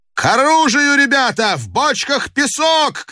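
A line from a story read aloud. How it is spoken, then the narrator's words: Frantic shouting, chieftain. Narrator (Russian): кричал не своим голосом атаман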